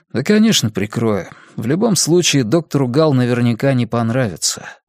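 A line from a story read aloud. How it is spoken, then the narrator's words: Sighing. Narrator (Russian): вздохнул Кориолан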